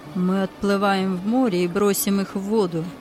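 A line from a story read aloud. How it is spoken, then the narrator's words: Plain. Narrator (Russian): ответил другой голос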